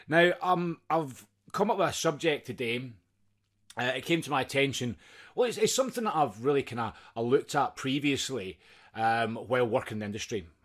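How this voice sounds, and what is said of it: Scottish accent. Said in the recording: “my crazy Scottish accent”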